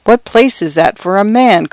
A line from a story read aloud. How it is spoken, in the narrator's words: cried Taggart's wife